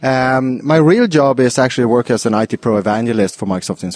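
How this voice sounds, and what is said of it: Swedish accent. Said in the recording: “I come from Sweden, thereof the accent.”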